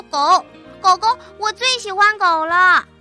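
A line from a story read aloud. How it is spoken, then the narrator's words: Excited child's shout. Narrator (Chinese): 游游喊了起来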